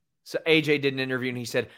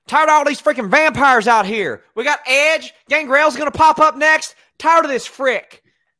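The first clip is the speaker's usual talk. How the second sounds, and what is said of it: AJ Styles impression. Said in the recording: “do an AJ Styles impersonation”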